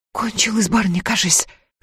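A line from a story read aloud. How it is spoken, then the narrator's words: Whispered. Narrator (Russian): шепотом выговорила Палашка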